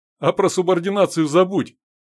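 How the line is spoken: Cheerful advice. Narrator (Russian): весело посоветовал Данила

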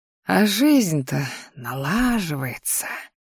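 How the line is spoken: Pleased mutter. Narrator (Russian): довольно буркнул мужчина себе под нос

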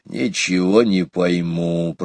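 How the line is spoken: Grumbling. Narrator (Russian): проворчал он

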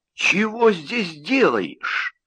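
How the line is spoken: Hoarse, through gritted teeth. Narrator (Russian): хрипло процедил он

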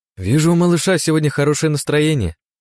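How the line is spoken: Shout. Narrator (Russian): крикнула я Катя

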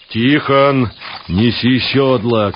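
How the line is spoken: Shouted. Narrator (Russian): крикнул Савва

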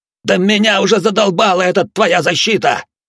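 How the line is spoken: Hysterical yelling. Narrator (Russian): С нотками истерики заорал Навар

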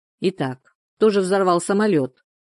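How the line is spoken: Dispassionate question. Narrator (Russian): спросил Андер Шуман бесстрастным тоном

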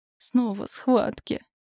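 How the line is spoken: Exhausted moan. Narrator (Russian): обессиленно простонала я

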